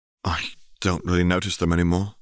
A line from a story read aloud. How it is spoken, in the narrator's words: he sighed